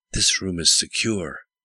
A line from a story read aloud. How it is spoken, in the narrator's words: whispered the general